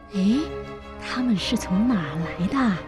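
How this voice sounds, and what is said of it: Quiet, whispered question. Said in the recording (Chinese): “小声地问”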